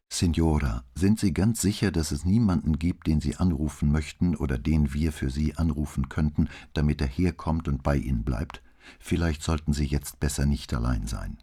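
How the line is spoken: Plain. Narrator (German): sagte Brunetti

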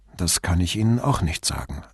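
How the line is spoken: Plain. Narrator (German): antwortete Brunetti

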